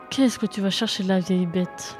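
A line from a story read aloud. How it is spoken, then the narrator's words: Murmur. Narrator (French): murmura-t-elle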